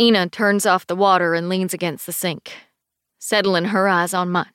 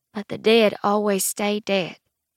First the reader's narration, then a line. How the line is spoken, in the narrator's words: she says gently